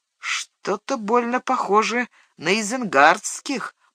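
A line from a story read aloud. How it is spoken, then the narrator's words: Mutter. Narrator (Russian): пробормотал Мэри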